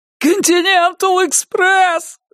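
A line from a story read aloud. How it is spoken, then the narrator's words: Yelling, male. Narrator (Russian): завопил он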